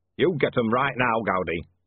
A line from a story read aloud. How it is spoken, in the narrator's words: snapped Bodney